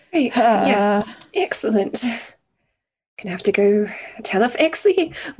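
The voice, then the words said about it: Hoarse voice. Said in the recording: “my voice is all hoarse from happy crying”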